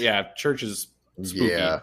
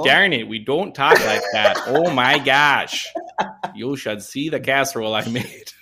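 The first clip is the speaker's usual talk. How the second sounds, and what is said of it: Put-on Minnesota accent. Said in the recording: “My favorite accent to do... The Minnesota accent.”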